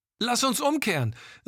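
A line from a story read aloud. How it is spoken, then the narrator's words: Shouting against strong wind. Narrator (German): rief Gilda Ian gegen den immer stärker werdenden Wind zu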